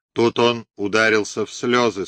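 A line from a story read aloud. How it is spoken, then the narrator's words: Plain. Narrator (Russian): сказала она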